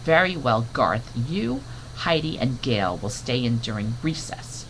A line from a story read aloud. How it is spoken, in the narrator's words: the teacher said firmly